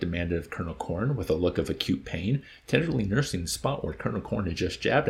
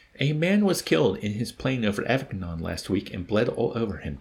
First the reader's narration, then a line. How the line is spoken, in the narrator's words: Captain Wren replied